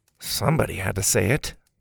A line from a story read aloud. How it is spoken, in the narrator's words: Bo mumbled